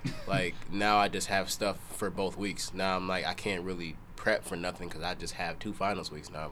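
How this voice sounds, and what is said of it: Slightly sick-sounding voice. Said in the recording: “you might hear it in my voice, I'm getting over a little sickness”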